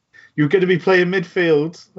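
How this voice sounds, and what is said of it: Weird accent, imitates another person's voice. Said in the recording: “That's not his voice, but it's such a weird accent. ... Sounded a bit Stephen Merchant for a second there ... he's not Welsh in his accent”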